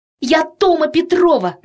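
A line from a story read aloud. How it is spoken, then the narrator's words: Female shout. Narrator (Russian): закричала Тома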